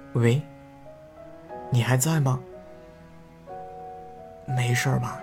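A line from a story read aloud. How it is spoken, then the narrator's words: Soft question. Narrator (Chinese): 忍不住轻声问了句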